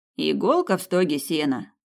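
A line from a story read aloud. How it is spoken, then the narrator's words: Grumbled. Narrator (Russian): пробурчал один коллега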